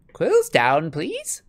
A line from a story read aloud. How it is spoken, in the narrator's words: squeaked Professor Flitwick